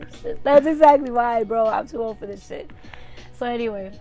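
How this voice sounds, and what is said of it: Usual voice. Nothing is said of it.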